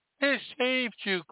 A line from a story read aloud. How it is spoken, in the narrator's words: cried